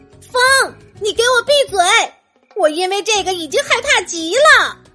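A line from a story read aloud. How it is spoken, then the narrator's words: Frightened loud shout. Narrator (Chinese): 艾斯梅拉达大声喊道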